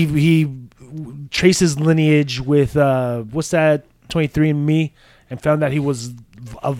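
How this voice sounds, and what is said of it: Usual voice. Nothing is said of it.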